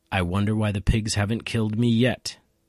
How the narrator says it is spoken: he said with a snarl

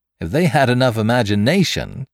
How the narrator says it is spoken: I laughed loudly

